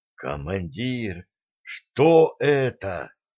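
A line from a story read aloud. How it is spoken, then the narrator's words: Shocked whisper. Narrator (Russian): потрясенно прошептал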